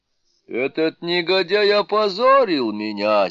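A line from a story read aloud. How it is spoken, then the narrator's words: Indignant shout. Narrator (Russian): с негодованием закричал Вайсравана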